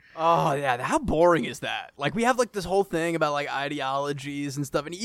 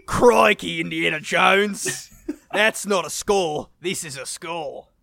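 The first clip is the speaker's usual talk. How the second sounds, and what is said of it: Put-on Australian accent. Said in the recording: “accent ... Australia, I think, maybe?”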